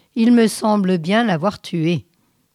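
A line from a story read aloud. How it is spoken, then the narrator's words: Calm. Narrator (French): dit-il calmement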